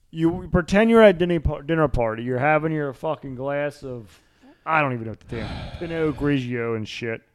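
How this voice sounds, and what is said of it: Strong Baltimore accent. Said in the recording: “That's the most Baltimore the accent ever. Pinot Grigio.”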